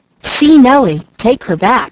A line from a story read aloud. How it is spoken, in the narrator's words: he exclaimed